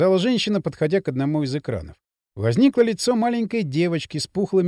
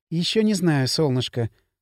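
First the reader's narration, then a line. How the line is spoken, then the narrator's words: Tender reply. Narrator (Russian): ласково ответила Миланта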